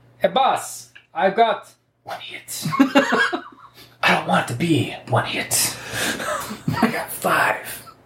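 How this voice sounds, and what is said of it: Speaking in a character voice. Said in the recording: “in the character voice”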